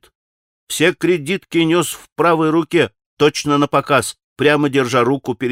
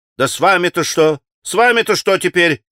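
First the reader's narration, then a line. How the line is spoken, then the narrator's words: Shouted again. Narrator (Russian): прокричал опять Петр Ильич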